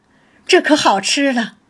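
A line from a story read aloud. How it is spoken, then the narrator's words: Laughing. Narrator (Chinese): 宝玉笑道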